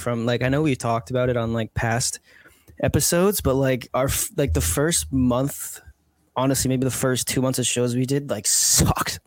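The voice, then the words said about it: Rough, sick-sounding voice. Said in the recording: “I'm very sick right now, so my voice is kind of crappy”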